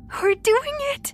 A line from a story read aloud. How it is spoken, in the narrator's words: she said excitedly